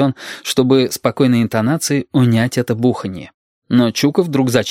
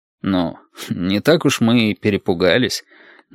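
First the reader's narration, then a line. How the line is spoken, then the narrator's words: Awkward snort. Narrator (Russian): неловко хмыкнул Валентин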